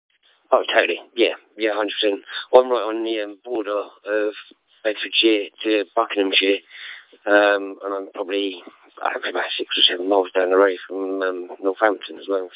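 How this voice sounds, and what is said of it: English Bedfordshire-Buckinghamshire regional accent. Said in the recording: “You sound very much like my deceased cousin, who was from, Milton Keynes is Buckinghamshire, isn't it? My cousin was from Northamptonshire, but the accents are fairly similar ... it's a bit of a strange old accent up here”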